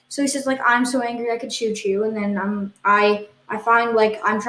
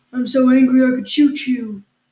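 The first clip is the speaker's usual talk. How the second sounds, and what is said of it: Imitates another person's voice. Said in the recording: “That was my impression of what he said.”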